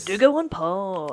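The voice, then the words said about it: Commercial radio announcer voice. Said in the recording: “Commercial radio voice.”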